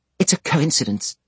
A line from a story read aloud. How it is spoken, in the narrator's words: exclaimed Mrs